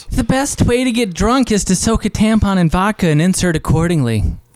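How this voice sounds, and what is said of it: Drag queen voice. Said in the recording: “one of the best people at doing this accent ... Drag queen”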